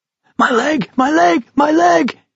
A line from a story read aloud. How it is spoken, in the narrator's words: screamed unable to help himself